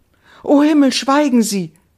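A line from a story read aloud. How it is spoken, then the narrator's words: Young woman calling out. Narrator (German): rief die junge Frau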